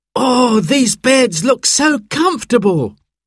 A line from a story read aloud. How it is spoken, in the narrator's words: cried